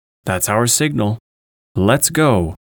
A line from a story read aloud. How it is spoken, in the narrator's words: Holmes cried out